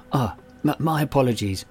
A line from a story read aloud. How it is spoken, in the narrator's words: he murmured